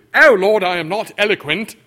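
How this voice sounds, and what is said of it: Put-on English accent. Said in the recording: “Probably had an English accent, too.”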